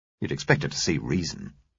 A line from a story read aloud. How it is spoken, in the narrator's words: he muttered